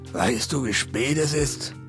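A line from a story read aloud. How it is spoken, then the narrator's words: Growl. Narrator (German): knurrte er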